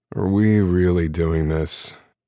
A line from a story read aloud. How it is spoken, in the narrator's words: Wes asks, groaning on the couch